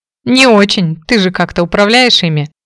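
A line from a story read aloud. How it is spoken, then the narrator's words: Smirking grunt. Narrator (Russian): хмыкнул Фрэнк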